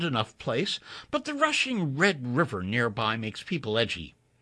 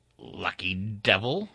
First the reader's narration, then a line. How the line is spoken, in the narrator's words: Veris growled